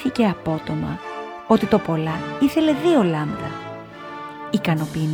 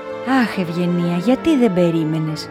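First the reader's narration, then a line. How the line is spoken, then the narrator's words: Sighing mother. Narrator (Greek): αναστέναξε η μαμά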